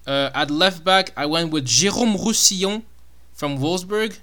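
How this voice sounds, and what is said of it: Put-on French accent on a name. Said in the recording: “I don't know why I did it with a French accent.”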